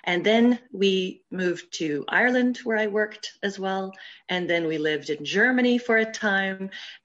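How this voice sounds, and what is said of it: American accent. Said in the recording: “as you may be able to guess from my accent, I'm an American”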